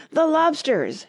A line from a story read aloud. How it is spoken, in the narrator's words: shouted the Gryphon